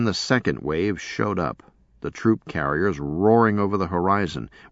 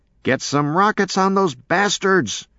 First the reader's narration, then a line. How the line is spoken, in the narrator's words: Hillebo yelled to everyone in particular